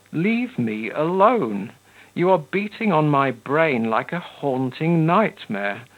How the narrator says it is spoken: Ivan moaned miserably

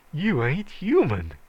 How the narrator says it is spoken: he gasped

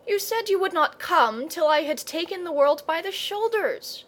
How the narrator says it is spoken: gasped Leo

